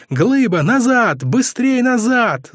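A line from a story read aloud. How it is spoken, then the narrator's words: Group yelling. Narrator (Russian): заорали все в люльке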